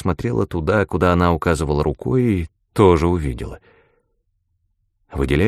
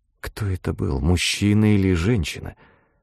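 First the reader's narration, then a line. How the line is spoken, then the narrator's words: Quiet question. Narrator (Russian): спросила она тихо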